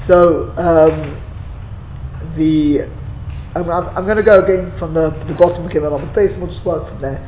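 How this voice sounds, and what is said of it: Strained, worn-out voice. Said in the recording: “as you can hear my voice is. ... I think I wrecked it this morning in the show ... it'll warm up a little bit”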